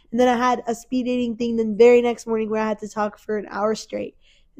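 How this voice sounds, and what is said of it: Hoarse, strained voice. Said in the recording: “My voice is gone from ... screaming too loud ... my voice is a little gone”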